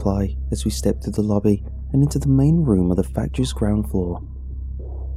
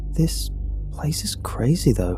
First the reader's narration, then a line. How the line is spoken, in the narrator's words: I murmur